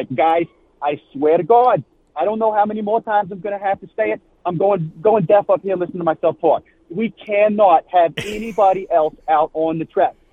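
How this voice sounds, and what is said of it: Put-on Yankee accent. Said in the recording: “we got to go full Yankee with the accent.”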